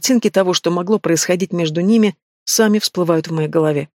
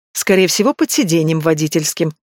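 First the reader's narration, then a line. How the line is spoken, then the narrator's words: Meaningful giggle. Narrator (Russian): хихикает многозначительно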